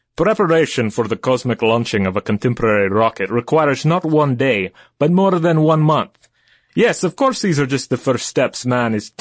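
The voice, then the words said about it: Put-on Russian accent. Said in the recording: “in his best Russian accent ... I'm sounding a little like Dracula”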